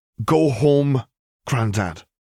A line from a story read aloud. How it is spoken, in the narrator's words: the younger Moody said firmly